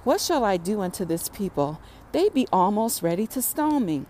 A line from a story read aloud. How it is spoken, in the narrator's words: Moses cried unto the Lord, saying